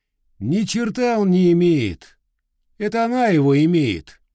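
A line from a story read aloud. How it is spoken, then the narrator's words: Deliberately loud. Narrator (Russian): Нарочно громко сказал я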